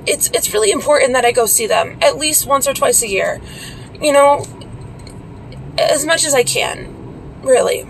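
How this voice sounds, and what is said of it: Strained, choked-up, fading voice. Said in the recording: “I'm losing my voice and you guys can tell I'm getting a little choked up”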